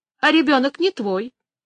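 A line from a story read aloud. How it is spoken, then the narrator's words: Calm. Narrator (Russian): она так спокойно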